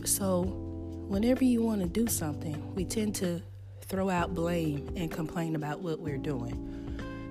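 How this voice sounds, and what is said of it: Rough voice, throat still recovering. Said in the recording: “please excuse my throat. I'm still recovering over losing my voice.”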